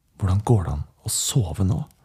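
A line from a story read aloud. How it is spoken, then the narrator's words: Hoarse whisper. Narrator (Norwegian): Henrik hvisket hest tilbake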